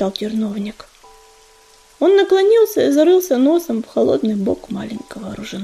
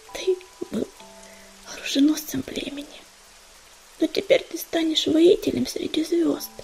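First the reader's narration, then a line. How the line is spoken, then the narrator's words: Whisper close to ear. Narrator (Russian): прошептала она в его мокрое от дождя ухо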